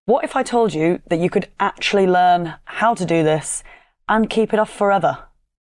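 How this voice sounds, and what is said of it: Monotone Yorkshire accent. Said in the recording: “my monotone Yorkshire accent”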